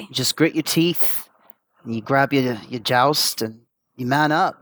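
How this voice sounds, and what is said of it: English accent from Essex. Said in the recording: “that's got to be a fake accent ... You sound like the guy who plays Spider-Man ... I'm from a small town in Essex ... real accent”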